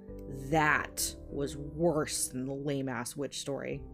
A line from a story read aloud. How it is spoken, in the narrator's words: John spat